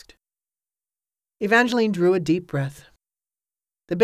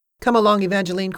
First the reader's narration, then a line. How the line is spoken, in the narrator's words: said